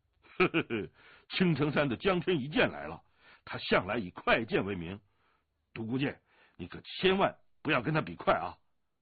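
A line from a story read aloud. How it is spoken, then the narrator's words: Laughing. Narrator (Chinese): 大笑声中，那人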